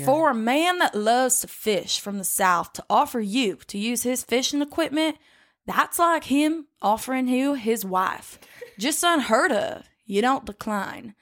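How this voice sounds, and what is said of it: Slow put-on older Southern accent. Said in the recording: “Let me get an accent on this bitch ... How do you do a southern accent? ... We're talking about older Mississippi. ... You gotta make it really slow.”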